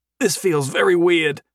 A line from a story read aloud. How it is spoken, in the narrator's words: he croaked in a gasping voice